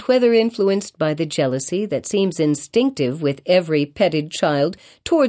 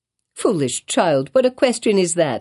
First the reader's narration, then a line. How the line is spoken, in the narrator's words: exclaimed her mother